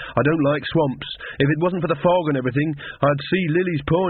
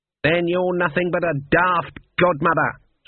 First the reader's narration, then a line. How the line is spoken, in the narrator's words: snapped Granny